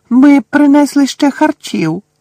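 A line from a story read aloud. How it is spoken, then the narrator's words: Elf's squeak. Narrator (Ukrainian): запищав один ельф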